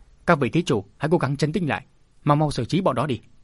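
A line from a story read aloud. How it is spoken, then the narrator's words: Monk shouting through gritted teeth. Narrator (Vietnamese): Thiên Diệu đại sư nghiến răng rồi quát lớn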